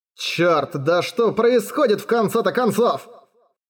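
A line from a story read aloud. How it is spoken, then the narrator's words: Irritated howl. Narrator (Russian): Взвыл от раздражения Торо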